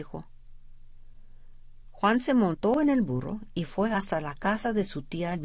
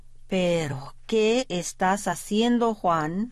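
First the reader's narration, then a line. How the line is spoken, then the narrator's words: Plain question. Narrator (Spanish): le preguntó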